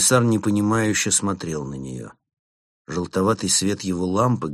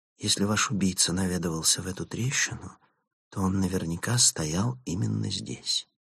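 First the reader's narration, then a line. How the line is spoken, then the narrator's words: Whisper. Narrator (Russian): Фанни шепнула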